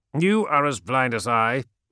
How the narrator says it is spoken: snapped Amon

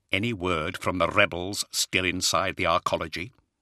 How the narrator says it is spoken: he quietly asked Zahariel

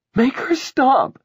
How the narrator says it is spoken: Ruth cried, her voice muffled

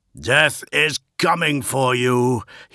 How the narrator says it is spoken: he yelled at them

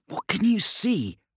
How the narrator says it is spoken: Asquin hissed

